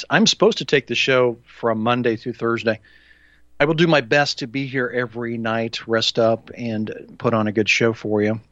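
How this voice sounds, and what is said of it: Sick, unwell-sounding voice. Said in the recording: “I've been sick. And you can probably tell by my voice right now, I'm not all 100% here yet”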